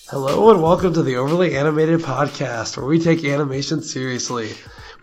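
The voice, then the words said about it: Badly strained, nearly lost voice. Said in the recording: “My voice is gone. ... It is really bad ... So bad for you right now ... Sound awful.”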